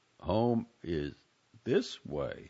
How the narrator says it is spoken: he said slowly

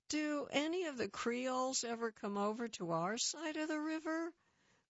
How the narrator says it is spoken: sighed

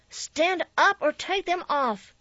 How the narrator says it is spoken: she screamed once

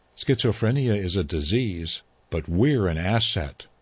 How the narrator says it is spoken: says the female

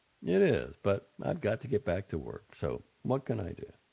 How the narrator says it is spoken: I said

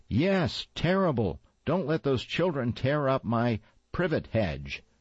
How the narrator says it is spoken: Armstrong yelled back

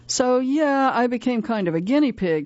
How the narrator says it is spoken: says Pascal

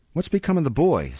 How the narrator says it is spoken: said the Jew, threatening him with horrid imprecations

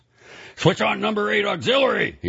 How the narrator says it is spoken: shouted

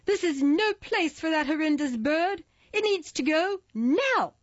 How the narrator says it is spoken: lady screeched with clenched jaw

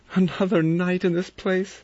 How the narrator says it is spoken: Vera cried

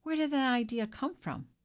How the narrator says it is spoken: exclaimed

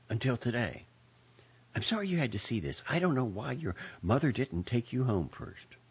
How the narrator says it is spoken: whispered

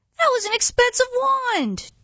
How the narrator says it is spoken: Jed screams

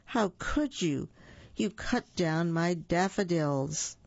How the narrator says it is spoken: Minnie cried

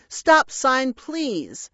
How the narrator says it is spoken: Stop Sign Man shouted

